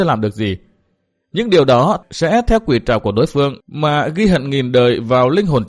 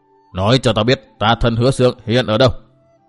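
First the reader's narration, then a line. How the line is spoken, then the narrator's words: Icy female voice, pleading. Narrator (Vietnamese): Nữ quái lại cất giọng lạnh lùng băng giá, nhưng lần này trong giọng nói ấy lại như có vẻ yêu cầu nhiều hơn dọa dẫm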